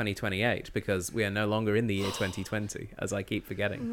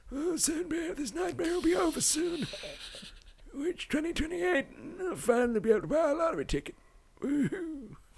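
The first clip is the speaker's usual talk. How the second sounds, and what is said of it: Old man voice. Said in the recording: “That's a good old man voice.”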